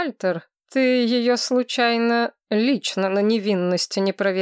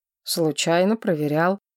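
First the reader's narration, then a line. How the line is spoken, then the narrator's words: Gruff mutter. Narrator (Russian): буркнул ректор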